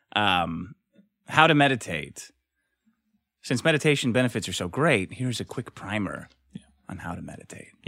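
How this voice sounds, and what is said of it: Sultry, soothing meditation-guide voice. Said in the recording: “in my sexiest meditating voice, too, like one of those guys”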